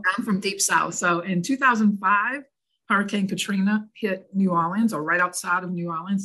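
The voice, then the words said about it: Deep Southern New Orleans accent. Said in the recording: “Originally born and raised in New Orleans. So this accent you hear is not from up north... I'm from as deep South as it gets, New Orleans.”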